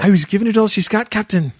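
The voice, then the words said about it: Exaggerated put-on Scottish accent. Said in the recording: “I can't do a James Doohan accent right now... He's Scottish... Stereotypically, offensively Scottish.”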